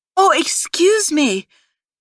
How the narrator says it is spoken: Nicole said loudly

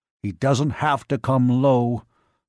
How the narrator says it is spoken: Cogswell growled unhappily

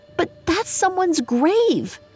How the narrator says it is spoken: Charlie sputtered

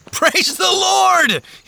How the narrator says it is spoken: He shouted, leaping for joy

